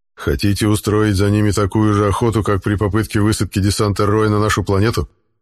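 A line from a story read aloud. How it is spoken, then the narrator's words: Plain. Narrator (Russian): спросил генерал Руф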